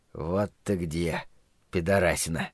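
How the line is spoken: Trash can whispering. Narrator (Russian): прошептал мусорный бак

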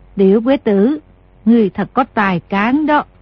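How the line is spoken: Smiling. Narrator (Vietnamese): Thái Hậu mỉm cười nói

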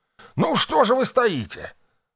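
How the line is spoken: Joyful, cordial exclamation. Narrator (Russian): радостно воскликнул Фрайс, стараясь как можно искренне показать свое радушие

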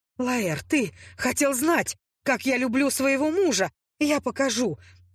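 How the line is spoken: Alternating whispers and shouts. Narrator (Russian): То шептала, то кричала я, пытаясь ускользнуть от болезненных ласк

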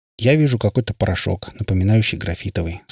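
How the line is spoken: Plain. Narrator (Russian): сказал Митч

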